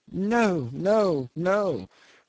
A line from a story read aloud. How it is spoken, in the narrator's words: croaked the old man